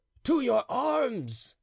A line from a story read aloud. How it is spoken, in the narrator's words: A man named Giorgio Pellegrino … shouting